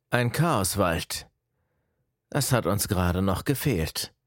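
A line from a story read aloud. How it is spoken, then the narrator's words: Older man, irritated, worried. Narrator (German): sprach der Ältere leicht verärgert, mit einem Hauch von Sorge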